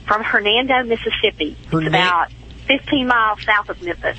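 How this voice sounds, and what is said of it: Southern drawl. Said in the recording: “I just love your southern drawl. ... Isn't it cute? I love it.”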